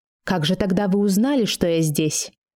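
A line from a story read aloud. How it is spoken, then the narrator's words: Quiet, smiling. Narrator (Russian): Мак улыбнулся и тихо сказал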